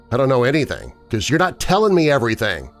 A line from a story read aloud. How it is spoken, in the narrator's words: I replied harshly